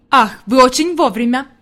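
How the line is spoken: Exclaiming. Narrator (Russian): воскликнул господин Сесман

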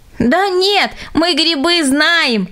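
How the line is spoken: Laughing children. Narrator (Russian): засмеялись дети

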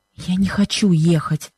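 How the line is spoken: Pained whisper. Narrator (Russian): шепнула она Бену с выражением страдания

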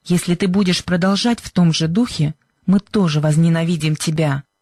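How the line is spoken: Angry reply. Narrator (Russian): зло ответила Сьюзен

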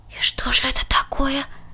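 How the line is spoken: Inspired whispered question. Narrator (Russian): шепотом спросил Ханс, вдохновленный преданностью своего брата

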